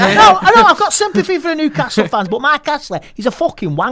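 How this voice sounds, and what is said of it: Usual voice. Nothing is said of it.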